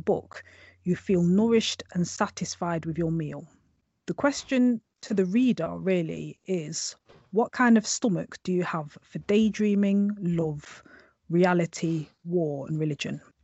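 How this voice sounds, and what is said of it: English accent. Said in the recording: “I'm amazed actually with the whole accent... I love the accent... an English accent”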